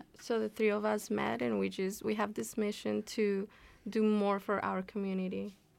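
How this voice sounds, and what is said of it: Colombian accent. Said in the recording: “Where your accent was from. ... My accent is from Colombia.”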